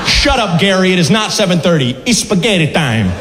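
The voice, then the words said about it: Put-on Mario-style cartoon accent. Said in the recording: “that accent is just adorable, right? You could give me the worst news of my life with that accent.”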